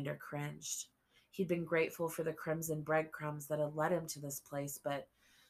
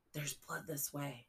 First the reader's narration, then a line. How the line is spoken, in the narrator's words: Seth whispered